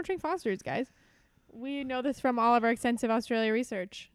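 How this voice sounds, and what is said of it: Usual voice. Nothing is said of it.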